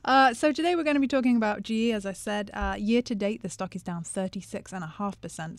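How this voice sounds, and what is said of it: British accent. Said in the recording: “the British accent is the greatest addition to the show ... it's just the British accent”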